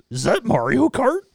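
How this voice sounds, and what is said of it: Slow Scooby-Doo-like Brian Posehn impression. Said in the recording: “Sounds like Scooby-Doo. ... not a very good impression.”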